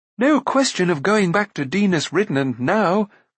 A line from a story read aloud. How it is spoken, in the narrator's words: cried Prince Rune